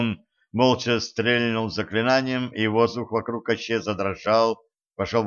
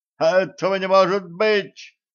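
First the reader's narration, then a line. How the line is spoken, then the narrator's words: Sorcerer crying out. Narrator (Russian): выкрикнул колдун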